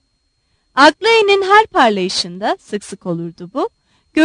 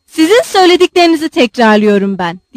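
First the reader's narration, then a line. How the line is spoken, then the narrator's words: Shouted. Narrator (Turkish): diye bağırdı Kolya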